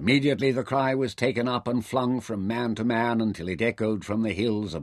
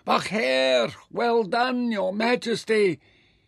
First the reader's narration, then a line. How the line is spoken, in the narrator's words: Mintaka shouted